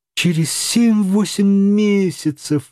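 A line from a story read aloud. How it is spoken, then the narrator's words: Exclaimed. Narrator (Russian): воскликнул Паганель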